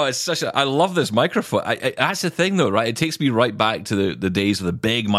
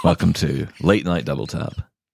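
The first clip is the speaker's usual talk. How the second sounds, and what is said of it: Deep late-night radio announcer voice. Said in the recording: “Please don't do that voice. ... You are so Mr. Radio”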